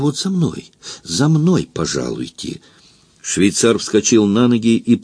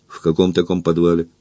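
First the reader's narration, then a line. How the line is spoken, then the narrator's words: Menacing question. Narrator (Russian): грозно спросил Эраст Петрович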